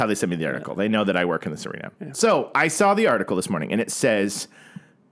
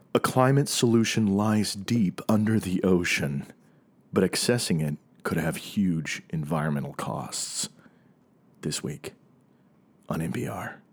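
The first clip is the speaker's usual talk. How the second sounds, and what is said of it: Dramatic announcer-style reading voice. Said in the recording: “I'm a very dramatic voice here.”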